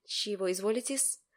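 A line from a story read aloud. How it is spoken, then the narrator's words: Mutter. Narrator (Russian): пробормотал он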